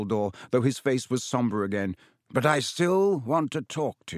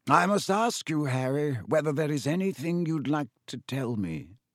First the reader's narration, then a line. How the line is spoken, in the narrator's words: he said gently